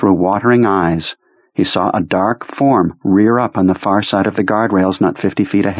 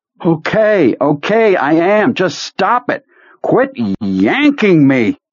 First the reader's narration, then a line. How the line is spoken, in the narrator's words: he heard himself shouting